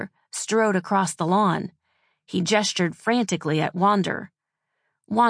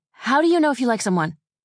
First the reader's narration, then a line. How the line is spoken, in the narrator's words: she blurted out